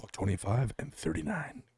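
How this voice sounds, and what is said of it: Professional announcer-style stat voice. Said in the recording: “I was doing my stat voice. ... I thought it was very professional.”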